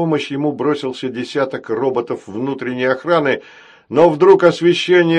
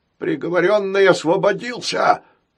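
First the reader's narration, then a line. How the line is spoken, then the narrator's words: Executioner's hoarse wheeze. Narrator (Russian): прохрипел палач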